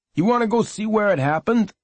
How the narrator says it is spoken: Billy shouted

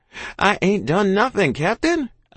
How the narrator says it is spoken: I cried out

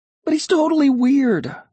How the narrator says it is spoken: I exclaimed

